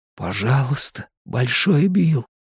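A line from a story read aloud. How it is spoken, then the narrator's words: Whispered. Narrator (Russian): прошептал Эдди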